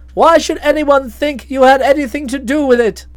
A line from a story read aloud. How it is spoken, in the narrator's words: I laughed